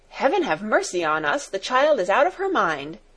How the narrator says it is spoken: cried Fräulein Rottenmeier, in terror

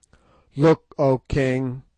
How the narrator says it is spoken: I cried

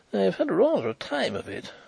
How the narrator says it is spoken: he reported with a nervous laugh

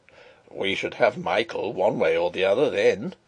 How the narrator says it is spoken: he chuckled

